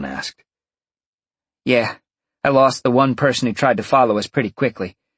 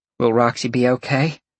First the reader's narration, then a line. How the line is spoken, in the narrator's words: Dalen asked in a worried voice